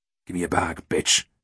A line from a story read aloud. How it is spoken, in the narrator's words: snarled